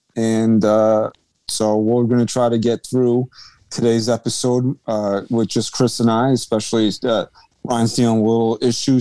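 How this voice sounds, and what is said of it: Shot, low-energy voice. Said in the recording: “My voice is shot, so and I don't have a lot of oomph in it, so if it's coming off low energy”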